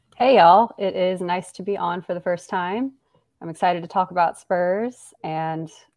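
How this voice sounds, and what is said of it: Slightly crackly voice. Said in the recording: “my voice might be sounding a little crackly because of mountain cedar allergies”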